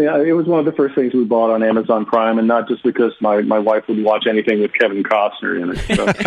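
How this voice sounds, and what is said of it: Usual voice. Nothing is said of it.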